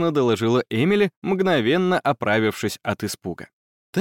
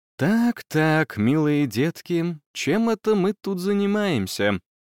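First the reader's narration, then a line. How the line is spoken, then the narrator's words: Ingratiating, commanding teacher. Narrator (Russian): профессор Бранстоун с видом полководца на поле брани заговорила вкрадчиво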